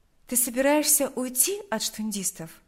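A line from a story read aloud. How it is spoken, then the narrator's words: Plain. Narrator (Russian): спросила она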